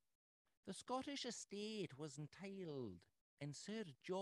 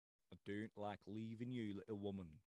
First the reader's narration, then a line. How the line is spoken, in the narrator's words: said my husband